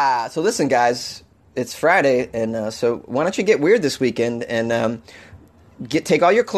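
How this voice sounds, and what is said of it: Usual voice. Nothing is said of it.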